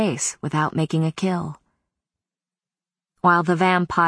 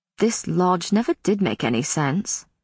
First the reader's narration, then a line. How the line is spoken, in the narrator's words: Matthew said in a conversational tone that was nevertheless intended to sting